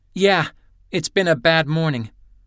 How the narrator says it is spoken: Hopkins said testily

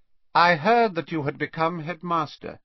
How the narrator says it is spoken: he said, and his voice was slightly higher and colder than it had been

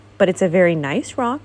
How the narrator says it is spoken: said kindly

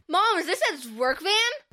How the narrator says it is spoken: Levi shouted

